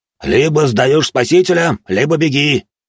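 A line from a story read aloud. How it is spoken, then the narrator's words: Huge creature yelling. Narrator (Russian): орал на него трехметровый ангел с двумя головами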